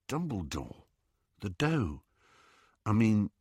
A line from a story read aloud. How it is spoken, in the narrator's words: said in a low voice